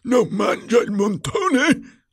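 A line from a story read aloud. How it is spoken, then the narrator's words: Roaring. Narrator (Italian): avrebbe ruggito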